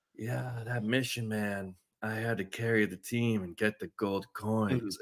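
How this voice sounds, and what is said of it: Slow drawling impression of CT. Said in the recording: “he talks with this slow voice ... CT's just like ... And it's like so slow”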